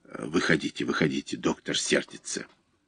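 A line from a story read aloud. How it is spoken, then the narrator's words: Whisper. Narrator (Russian): фельдшер зашептал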